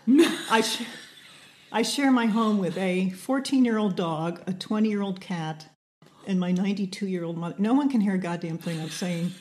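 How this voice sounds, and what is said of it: Slightly hoarse voice. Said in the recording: “If I'm a little hoarse, it's because I have to talk so loud at home ... So I come into work hoarse.”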